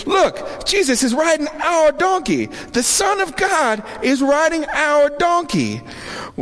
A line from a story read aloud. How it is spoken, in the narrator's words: The owners yelled to their neighbors